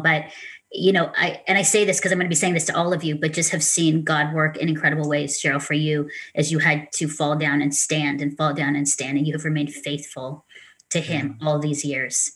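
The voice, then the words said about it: Tearful, emotional voice. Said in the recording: “I don't know why I'm getting emotional ... I'm tearing. I knew I would cry”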